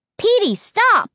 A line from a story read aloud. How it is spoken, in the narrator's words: shouted